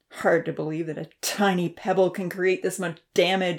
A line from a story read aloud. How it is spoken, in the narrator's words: Odin grumbled